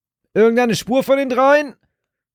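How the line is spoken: Shout over wind. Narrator (German): rief durch die nächste Bö

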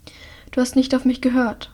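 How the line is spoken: Quiet. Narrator (German): sagt Hilda leise

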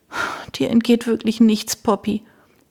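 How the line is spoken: Sighed. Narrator (German): Pat seufzte

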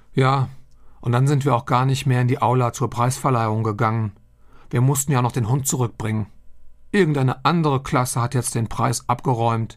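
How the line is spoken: Sighing addition. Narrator (German): fügt Tobi seufzend hinzu

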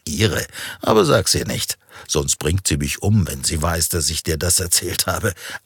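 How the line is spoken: Laughing answer. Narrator (German): antwortete und beide lachten wieder

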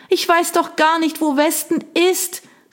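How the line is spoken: Shouting against the wind. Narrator (German): rief sie, aber der Wind riss ihr die Worte von den Lippen

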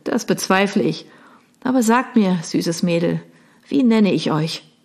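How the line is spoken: Asking, laughing. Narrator (German): fragte er und lachte

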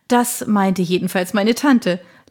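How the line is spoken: Soft laugh. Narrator (German): lachte Janet Roberts leise

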